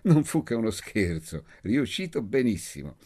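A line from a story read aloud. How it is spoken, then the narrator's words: Laughing. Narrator (Italian): La signora Malfenti disse ridendo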